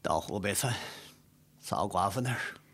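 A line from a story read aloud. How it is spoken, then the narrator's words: Melancholy sigh. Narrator (Chinese): 高恒怅然长叹一声，说道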